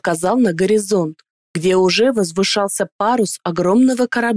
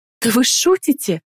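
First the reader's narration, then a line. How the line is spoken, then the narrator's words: Exclaiming. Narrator (Russian): воскликнула Далиила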